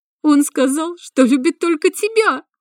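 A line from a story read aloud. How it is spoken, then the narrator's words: Bitter exclamation. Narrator (Russian): горько воскликнула блондинка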